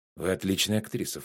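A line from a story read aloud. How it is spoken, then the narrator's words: Low voice. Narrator (Russian): вполголоса сказал он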